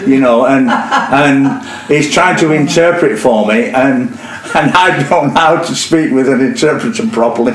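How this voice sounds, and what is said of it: Northern English accent. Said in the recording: “I've got this North Country accent,”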